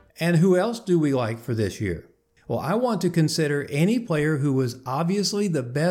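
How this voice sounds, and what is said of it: Usual voice. Nothing is said of it.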